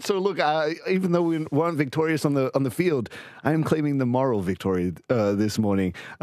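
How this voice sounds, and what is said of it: Strained, worn-out voice. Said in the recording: “my voice is not holding up, man. It's crazy.”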